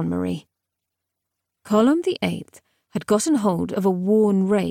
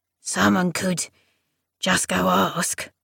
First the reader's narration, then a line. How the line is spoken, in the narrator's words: rumbled Column the Eighth